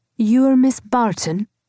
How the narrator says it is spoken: he said in his soft Scottish accent

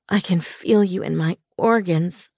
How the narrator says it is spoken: I groaned

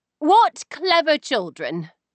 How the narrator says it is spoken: I exclaimed, with a bright smile

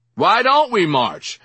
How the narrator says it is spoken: I yelled out to the sidewalk before I had time to think

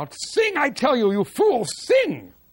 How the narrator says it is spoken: finally the Klemperer yelled out

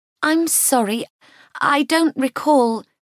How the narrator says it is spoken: Kitty stammered

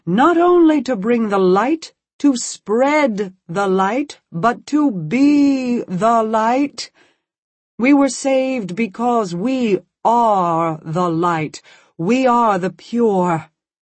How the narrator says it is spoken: his voice was rising

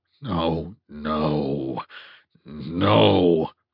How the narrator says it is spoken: my mind growled

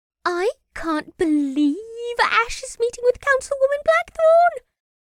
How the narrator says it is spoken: Maggie said excitedly, the fear from earlier gone

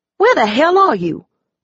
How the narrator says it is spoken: I snapped

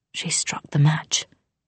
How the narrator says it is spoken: she whispered, an oath in her voice as death came for her

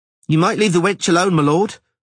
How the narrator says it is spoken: the forest beekeeper's wife, a tall, willowy woman of astonishing beauty, said crossly

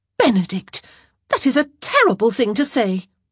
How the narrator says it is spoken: Eloise exclaimed

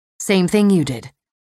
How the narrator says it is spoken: Eve said

